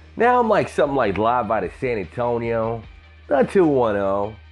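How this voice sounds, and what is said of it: Southern American twang. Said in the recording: “the southern twang”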